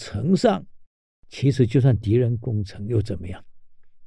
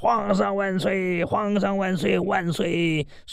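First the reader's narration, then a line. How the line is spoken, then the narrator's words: Loud crowd cheering. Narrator (Chinese): 宋军踊跃欢呼啊，那个声音传数十里呀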